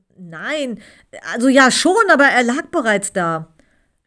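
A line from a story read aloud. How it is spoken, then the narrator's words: Stammering. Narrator (German): stammelte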